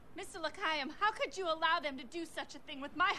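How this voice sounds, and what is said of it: Southern accent drifting into Boston. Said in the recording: “develop a new accent ... she starts southern, now she's got some Boston.”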